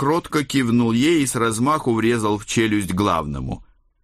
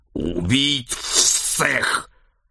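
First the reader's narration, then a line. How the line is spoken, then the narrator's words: Monstrous snake-headed growl. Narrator (Russian): прорычал чешуйчатый мутант с телом человека и головой змеи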